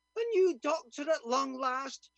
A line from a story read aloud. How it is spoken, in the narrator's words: she cried out